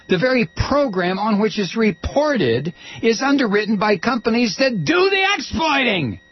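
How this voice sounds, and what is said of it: Yelling, loud angry speech. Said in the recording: “I'm sorry, I'm yelling.”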